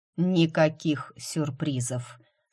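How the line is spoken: Iron-hard tone. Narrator (Russian): сказал железным тоном

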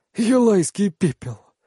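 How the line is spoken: Brother's hoarse exhale. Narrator (Russian): хрипло выдыхает брат

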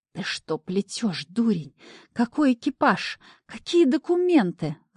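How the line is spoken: Hissed. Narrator (Russian): зашипела я

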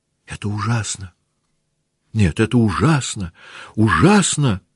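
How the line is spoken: Sudden speech, sobbing. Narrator (Russian): вдруг заговорила Наташа и опять зарыдала

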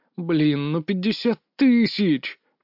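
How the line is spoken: Moaning. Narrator (Russian): простонал я

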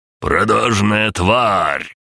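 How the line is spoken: Roaring. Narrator (Russian): проревел Виктор Викторович

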